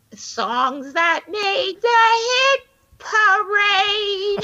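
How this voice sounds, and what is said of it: Sung impression of a TV character. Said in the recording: “You got an impersonation of Edith for us ... that was so great.”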